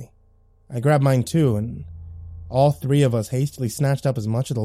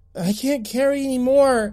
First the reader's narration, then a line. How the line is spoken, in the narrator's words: whined as he struggled to zip up the pack